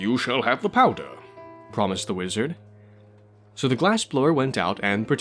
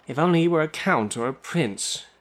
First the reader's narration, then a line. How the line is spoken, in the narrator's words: she sighed